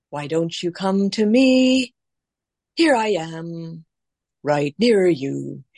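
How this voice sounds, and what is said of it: Voice dipping up and down like birdsong. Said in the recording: “the reason for the dips in my voice is that the bird song moves up and down in that way”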